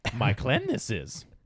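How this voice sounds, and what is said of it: Baby Yoda impression, old-sounding. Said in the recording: “Give us your best Baby Yoda impersonation. ... No, it ain't that old sounding.”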